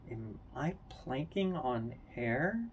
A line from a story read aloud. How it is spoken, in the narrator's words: she mutters to herself